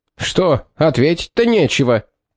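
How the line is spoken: Demanding question. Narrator (Russian): требовательным тоном осведомился

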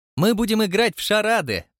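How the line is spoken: Cheerful announcement. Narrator (Russian): радостно проинформировала его миссис Притчет

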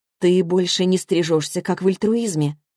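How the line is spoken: Calm question. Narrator (Russian): спокойно спрашиваю я

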